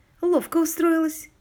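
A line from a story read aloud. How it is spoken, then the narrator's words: Giggle. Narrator (Russian): хихикнула Дейзи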